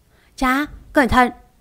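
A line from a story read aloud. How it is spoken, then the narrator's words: Shouting in alarm. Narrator (Vietnamese): Huyền Long chạy theo la lên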